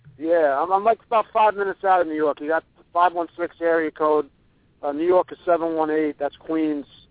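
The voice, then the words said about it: New York accent. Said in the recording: “You've got the accent, though. You could have told us you were right from downtown, and we would have believed it.”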